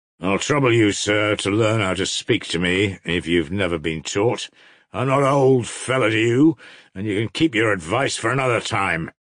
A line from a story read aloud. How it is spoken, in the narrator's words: Mavriky Mavrikievich snapped out savagely, as though glad to vent his wrath